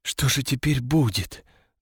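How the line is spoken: Trembling, near-panicked question. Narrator (Russian): дрожащим голосом спросила она, с трудом удерживаясь от того, чтобы не скатиться в панику

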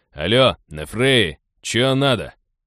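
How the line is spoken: Displeased, wary question. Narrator (Russian): Недовольно и настороженно, но не сказать, чтобы шибко злобно, поинтересовался он

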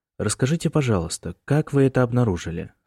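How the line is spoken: Calm lawyer. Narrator (Russian): спокойно предложил адвокат

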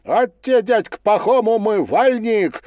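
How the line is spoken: Ringing shout, little boy. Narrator (Russian): звонко крикнул мальчонка

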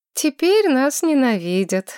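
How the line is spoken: Sighing. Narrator (Russian): вздохнула Маргарет

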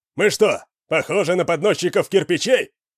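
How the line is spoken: Shouting. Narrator (Russian): крикнул кто-то

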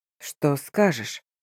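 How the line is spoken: Tired, hoarse question. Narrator (Russian): устало, сипло спросил князь

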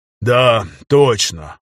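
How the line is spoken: Sighing. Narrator (Russian): Рязанцев вздохнул

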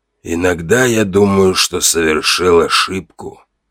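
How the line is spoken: Sudden, very quiet. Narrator (Russian): вдруг сказал он так тихо

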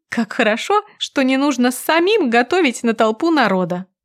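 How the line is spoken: Nervous giggle. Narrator (Russian): Нервно хихикаю

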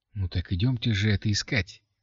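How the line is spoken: Quiet exclamation. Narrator (Russian): тихо воскликнула Катя

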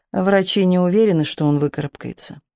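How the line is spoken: Said in an undertone. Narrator (Russian): вполголоса произносит

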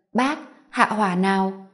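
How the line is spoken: Smiling, soothing. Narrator (Vietnamese): Thẩm Diệc Minh cô mỉm cười

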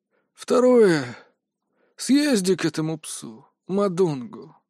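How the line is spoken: Angry near-hiss. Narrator (Russian): от злости, едва не прошипел Пак Кихун

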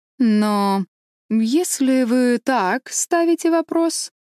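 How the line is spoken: Drawling with a smirk. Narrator (Russian): протянул с усмешкой Джадсон

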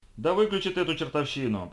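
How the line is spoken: Shouting over loud music. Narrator (Russian): прокричал Билл, пытаясь переорать неизвестную ему звезду рок-н-ролла

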